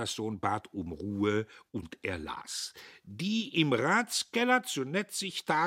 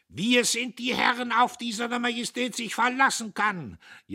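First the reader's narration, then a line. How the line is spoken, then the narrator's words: Major shouting fit to burst. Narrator (German): schrie der Major, als sollte er platzen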